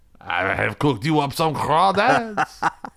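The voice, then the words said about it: Put-on New Orleans French accent. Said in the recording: “It sounds like a New Orleans person speaking French.”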